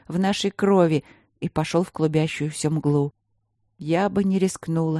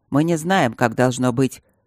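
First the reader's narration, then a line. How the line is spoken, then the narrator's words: Dry admission. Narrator (Russian): сухо признался Львовский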